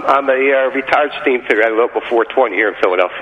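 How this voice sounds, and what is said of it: Philadelphia accent. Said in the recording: “You sound like... Are you from Philly? ... you have the accent, and it's great.”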